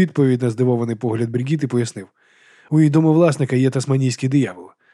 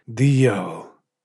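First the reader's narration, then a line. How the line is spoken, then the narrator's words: Mutter. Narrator (Ukrainian): пробурмотів Гаррі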